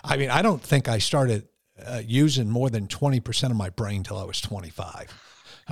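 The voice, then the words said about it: Northeast New York-Connecticut accent. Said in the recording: “crazy Northeast New York, Connecticut accent”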